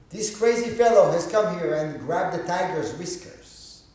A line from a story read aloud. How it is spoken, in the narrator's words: Obaku yelled